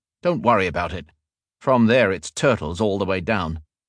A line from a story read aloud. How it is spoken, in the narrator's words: The man snapped